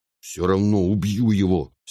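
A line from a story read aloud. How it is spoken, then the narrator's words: Angry brother. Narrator (Russian): сердито сказал брат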